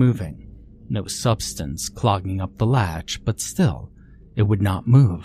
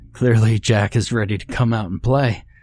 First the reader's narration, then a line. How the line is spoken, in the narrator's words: Deacon chuckled